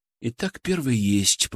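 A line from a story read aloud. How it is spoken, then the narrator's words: Said quietly. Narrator (Russian): произнес тихо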